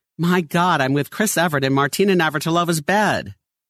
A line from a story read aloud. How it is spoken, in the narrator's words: causing the gentleman to exclaim the next morning